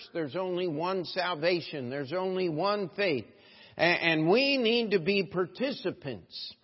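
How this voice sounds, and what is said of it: Southern American accent. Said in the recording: “I thought I heard that southern accent. ... I picked that up in Missouri.”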